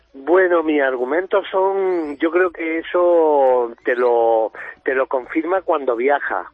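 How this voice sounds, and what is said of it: Noticeable regional Spanish accent. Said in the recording (Spanish): “se te nota el acento”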